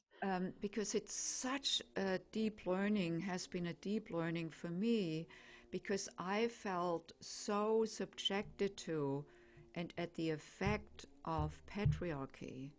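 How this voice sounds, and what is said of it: German accent. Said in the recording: “I'm German, as probably most can tell by my accent.”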